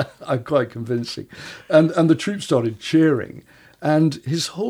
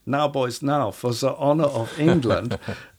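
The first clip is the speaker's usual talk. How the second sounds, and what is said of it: Put-on German accent. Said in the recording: “in a German voice ... Lucky you've got German blood. You can do that so well.”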